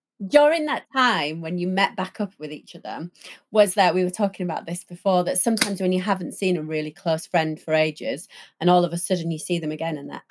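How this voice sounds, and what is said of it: Northern English accent. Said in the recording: “As you can tell, I'm really northern”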